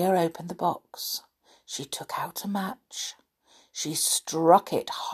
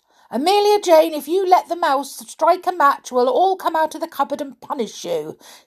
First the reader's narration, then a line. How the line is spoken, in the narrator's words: shouted the clockwork clown